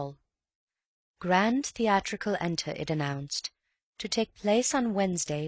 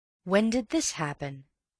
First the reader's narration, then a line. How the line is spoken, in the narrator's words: he asked